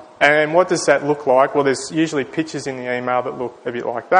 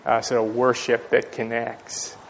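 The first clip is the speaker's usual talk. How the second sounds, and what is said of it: Put-on American accent. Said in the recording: “If you say it with an American accent, it's far more compelling.”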